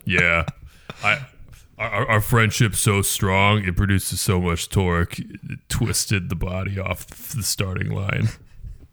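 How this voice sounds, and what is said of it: Deep throaty Dom Toretto impression. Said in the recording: “whatever accent that is ... that's the Dom Toretto, I am Groot, deep throat voice”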